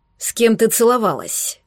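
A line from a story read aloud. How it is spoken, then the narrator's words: Growled. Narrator (Russian): прорычал Балаев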